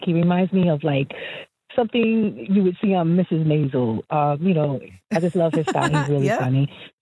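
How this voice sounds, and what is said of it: New York / New Jersey accent. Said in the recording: “I love her accent ... it's giving like New York ... It was definitely giving Jersey, New York.”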